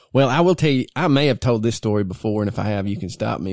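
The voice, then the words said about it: Strong rural Southern US accent. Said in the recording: “our accents ... Y'all sound like two boys I drink with ... we're country as hell ... I ain't scared of my accent”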